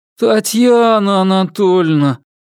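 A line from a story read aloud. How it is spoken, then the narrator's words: Moaning. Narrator (Russian): простонал я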